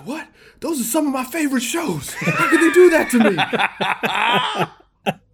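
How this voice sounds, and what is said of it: Impression of Bill Plaschke. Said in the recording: “a Plaschke impersonation”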